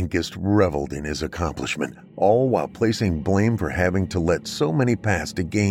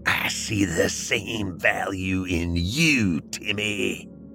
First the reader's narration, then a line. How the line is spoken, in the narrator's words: he hissed